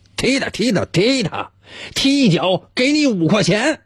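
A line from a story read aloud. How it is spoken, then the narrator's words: Loud shouting. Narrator (Chinese): 老张呢，还在一旁大声的喊着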